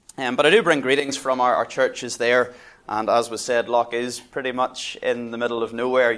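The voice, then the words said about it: Northern Irish accent. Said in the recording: “you're waiting for the Aussie accent. But no, it's a Northern Irish accent”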